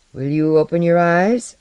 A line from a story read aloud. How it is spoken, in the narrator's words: Shapir said in his glancing, reluctant voice